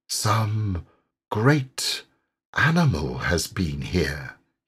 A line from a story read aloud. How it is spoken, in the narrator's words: he murmured, slowly and thoughtfully